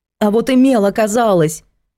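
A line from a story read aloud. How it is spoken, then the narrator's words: Desperate shout. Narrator (Russian): выкрикнула Антонина и отчаянно сказала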